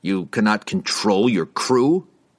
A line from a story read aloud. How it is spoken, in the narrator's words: the pirate spat